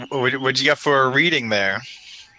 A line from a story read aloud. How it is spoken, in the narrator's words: Reptile screams